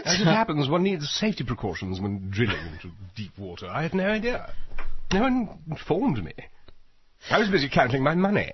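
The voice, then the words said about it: Put-on posh British accent. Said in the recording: “this British accent ... it's rakish accent ... I do have a charming accent.”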